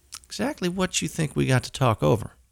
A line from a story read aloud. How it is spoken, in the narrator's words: young fella gave a little chuckle